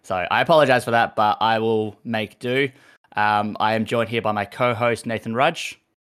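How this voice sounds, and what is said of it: Hoarse, half-lost voice. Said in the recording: “I've half lost my voice ... my voice is nearly gone.”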